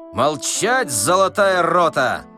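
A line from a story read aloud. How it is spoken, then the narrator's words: Shouted. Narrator (Russian): закричал Остап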